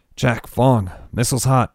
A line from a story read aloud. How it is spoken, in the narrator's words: Eric said curtly into the comm